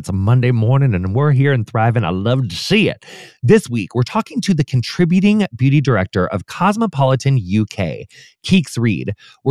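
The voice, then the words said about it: Raspy voice. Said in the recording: “my Phoebe raspy voice came out”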